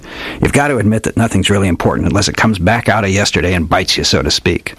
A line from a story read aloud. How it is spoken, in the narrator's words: he grunted